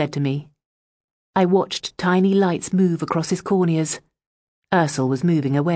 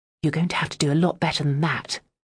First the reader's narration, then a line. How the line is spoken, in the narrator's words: I said quietly